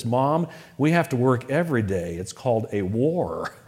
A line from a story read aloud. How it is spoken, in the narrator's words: he said